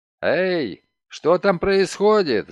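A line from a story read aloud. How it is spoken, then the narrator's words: Full-voiced shout. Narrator (Russian): закричал он во весь голос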